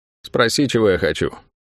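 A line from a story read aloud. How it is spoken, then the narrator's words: Dry demand, woman. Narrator (Russian): сухо потребовала женщина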